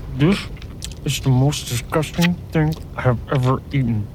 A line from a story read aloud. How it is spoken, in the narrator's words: mumbled Terrence, sauce and grease dripping down his chin